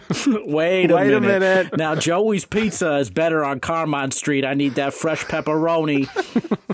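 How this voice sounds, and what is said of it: Put-on New Jersey accent. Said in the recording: “immediately adopts a Jersey accent ... he only has an accent when he says, wait a minute”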